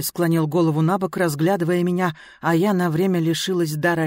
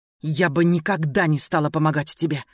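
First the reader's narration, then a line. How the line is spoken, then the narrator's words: Hiss. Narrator (Russian): прошипела я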